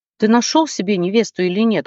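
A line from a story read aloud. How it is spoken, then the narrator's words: Parents shouting in chorus. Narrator (Russian): хором закричали родители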